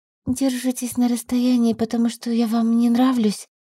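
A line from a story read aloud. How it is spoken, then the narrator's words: Fearful whispered question. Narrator (Russian): Спросила шепотом, боясь услышать подтверждение своим худшим опасениям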